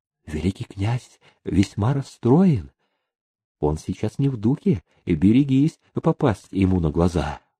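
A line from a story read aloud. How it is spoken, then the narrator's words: Young woman whispering. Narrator (Russian): молоденькая фрейлина зашептала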